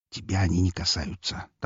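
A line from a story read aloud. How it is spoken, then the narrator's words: Quiet reply. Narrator (Russian): так же тихо отозвался он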